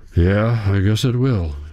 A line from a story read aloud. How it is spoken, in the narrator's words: he says, letting out a deep sigh